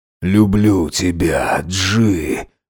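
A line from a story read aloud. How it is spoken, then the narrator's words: Breathed out. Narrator (Russian): выдохнул он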